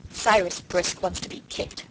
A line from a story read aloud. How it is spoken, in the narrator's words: growled Felix